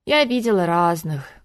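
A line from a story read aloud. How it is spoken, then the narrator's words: Sad sigh. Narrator (Russian): грустно вздохнула Ольга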